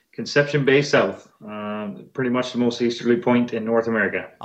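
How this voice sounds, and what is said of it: Strong Newfoundland accent. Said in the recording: “an incredible Newfoundland accent”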